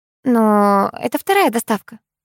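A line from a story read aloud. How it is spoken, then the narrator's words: Ingratiating, insinuating. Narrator (Russian): вкрадчиво произнесла Раиса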